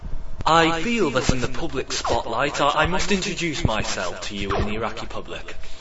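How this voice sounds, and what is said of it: British accent. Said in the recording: “Do not be fooled by my British accent, as I emigrated there.”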